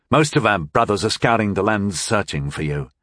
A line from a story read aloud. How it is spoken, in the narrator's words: answered one of the other men sullenly